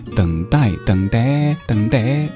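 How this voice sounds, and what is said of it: Sung words with put-on accent. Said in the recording (Chinese): “你要把这个等待唱的带点口音”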